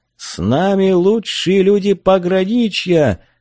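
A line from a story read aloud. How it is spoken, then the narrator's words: Straining, hoarse yell. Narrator (Russian): надсаживая глотку, заорал я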